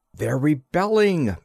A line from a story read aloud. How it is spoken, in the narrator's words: I cried